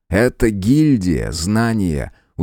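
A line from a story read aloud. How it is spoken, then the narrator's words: Teacherly explaining tone. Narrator (Russian): учительским тоном пояснил Мик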